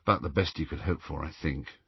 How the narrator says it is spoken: murmured Harry

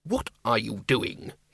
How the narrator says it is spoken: hissed Ridcully

